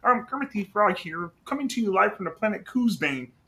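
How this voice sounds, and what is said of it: Kermit the Frog character voice. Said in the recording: “I do a Kermit the Frog impression. It's not the best ... That's pretty good.”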